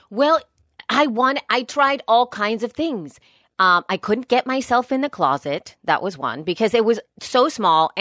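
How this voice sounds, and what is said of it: Worn voice, still recovering. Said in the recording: “My voice was shot. My voice is still recovering right now.”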